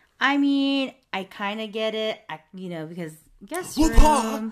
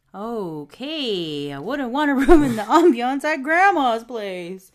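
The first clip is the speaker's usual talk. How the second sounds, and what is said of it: Imitates a sitcom character's voice. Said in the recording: “In that classic Chandler voice.”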